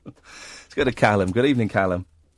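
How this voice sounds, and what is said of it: Put-on northern English accent. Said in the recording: “Just found myself naturally doing your voice there when you called in ... Sounds a lot like my voice ... It's these northerners.”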